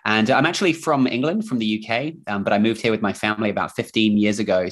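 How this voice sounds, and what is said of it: Mixed English and New Zealand accent. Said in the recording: “accent, it's sort of a mix of English slash Kiwi New Zealand accent.”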